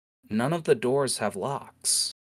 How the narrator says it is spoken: as her brow furrows quietly says

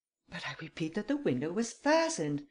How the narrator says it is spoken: exclaimed the Count impatiently

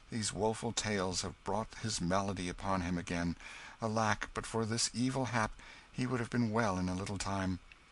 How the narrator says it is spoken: sighed Hendon

